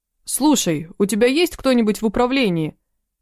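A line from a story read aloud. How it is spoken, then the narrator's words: Yelling. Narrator (Russian): заорал он с порога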